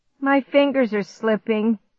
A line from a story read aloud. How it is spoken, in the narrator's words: Clark groaned